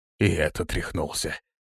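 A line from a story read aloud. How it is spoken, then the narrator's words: Quiet guard. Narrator (Russian): тихо произнес один из стражников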